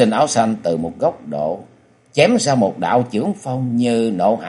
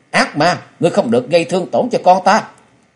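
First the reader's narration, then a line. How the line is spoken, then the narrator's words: Anguished loud cry. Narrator (Vietnamese): đau đớn hét lớn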